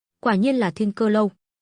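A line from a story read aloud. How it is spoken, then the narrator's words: Cold. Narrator (Vietnamese): Thần Võ Đại Đế lạnh lùng nói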